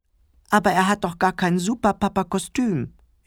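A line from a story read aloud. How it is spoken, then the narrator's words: Whining. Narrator (German): jammerte Clemens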